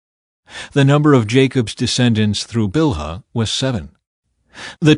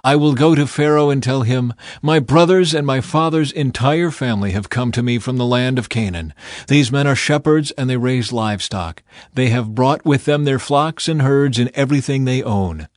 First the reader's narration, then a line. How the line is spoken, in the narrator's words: Then he said